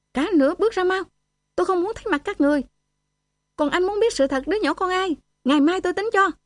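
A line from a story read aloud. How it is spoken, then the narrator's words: Shouting. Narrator (Vietnamese): Tôi hét lên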